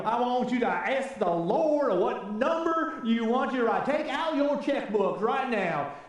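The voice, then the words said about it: TV evangelist in Southern accent. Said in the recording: “anytime I think of a TV evangelist, I always break into a Southern accent ... I'm horrible at accents.”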